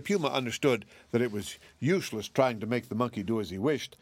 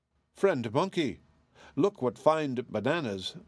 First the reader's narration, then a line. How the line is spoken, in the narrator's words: cried he